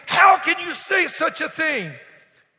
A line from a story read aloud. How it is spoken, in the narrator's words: Boudreaux screamed